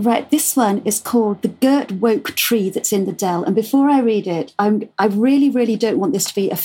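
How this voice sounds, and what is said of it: Usual voice. Nothing is said of it.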